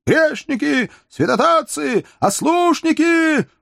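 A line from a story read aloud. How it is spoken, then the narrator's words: Two voices, fanatical shouting. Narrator (Russian): уже не скрывая фанатизма, два голоса кричали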